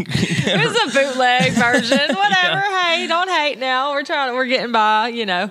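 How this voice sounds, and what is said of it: Southern American accent. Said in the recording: “your southern accent and like just the southernness in our voices”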